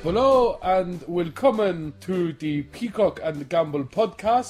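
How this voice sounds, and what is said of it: Put-on German accent. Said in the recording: “I don't even know what that accent is. ... That's German, is it?”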